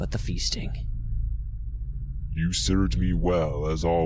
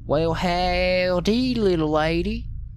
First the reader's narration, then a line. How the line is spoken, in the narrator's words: he said in a perfect Texas drawl